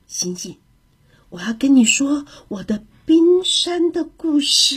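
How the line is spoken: Quiet voice. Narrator (Chinese): 他小声地说

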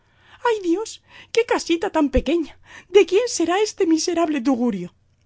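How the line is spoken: Woman exclaims. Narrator (Spanish): ella exclamó

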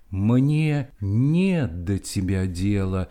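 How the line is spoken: Plain. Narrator (Russian): говорит природа человеку

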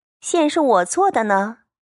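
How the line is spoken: Laughing. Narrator (Chinese): 宝琴笑道

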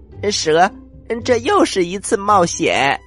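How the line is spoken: Happy, laughing. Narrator (Chinese): 他们高兴极了，不由得笑出了声蜥蜴说

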